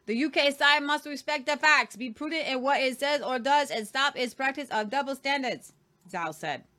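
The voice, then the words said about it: Put-on Chinese accent. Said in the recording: “That was my Chinese accent. ... That was really good.”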